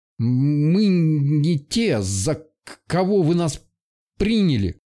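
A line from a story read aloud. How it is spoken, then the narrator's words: Stammering. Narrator (Russian): выговорил, заикаясь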